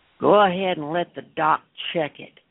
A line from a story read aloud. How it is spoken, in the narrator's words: Fulgrath grumbled